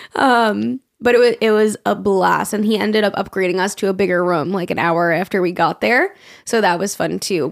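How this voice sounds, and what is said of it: Raspy, strained voice. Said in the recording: “hear it in my voice, it's still kind of raspy and like when I do like certain tones, it's like”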